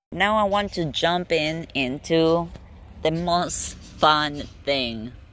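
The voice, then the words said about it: Sarcastic tone. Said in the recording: “That was sarcastic”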